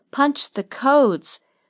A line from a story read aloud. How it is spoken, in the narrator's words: Story gasped as the pain increased